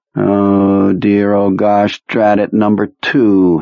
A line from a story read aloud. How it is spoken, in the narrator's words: he says, running them all together in a monotone